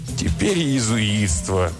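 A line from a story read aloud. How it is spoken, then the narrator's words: Groaning. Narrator (Russian): простонал Бартоломи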